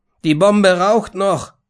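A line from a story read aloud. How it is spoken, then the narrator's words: Shouted. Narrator (German): schrie er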